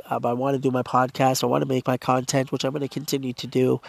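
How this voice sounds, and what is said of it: Congested, hoarse, strained voice. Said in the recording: “I have a blocked nose. ... I have a sore throat, losing my voice.”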